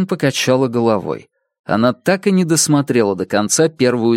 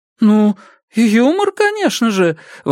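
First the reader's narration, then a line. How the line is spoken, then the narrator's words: Exclaiming. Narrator (Russian): воскликнула Ясмин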